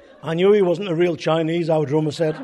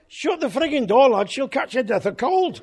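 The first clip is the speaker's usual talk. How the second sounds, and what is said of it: Broad Scouse accent. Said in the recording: “said in a broad Scouse accent”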